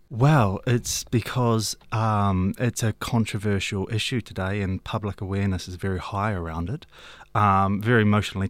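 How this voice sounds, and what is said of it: Slight English twang. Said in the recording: “I've got a bit of an English twang because I spent a lot of time in England”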